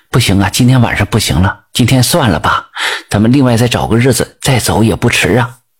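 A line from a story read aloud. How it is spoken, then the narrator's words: Low voice. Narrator (Chinese): 低声对着孙宽说了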